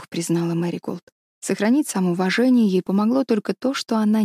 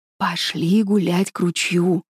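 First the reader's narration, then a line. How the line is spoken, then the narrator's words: Whisper. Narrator (Russian): прошептал он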